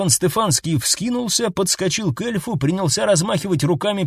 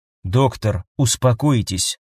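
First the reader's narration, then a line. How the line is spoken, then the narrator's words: Calm. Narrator (Russian): спокойно сказал эльф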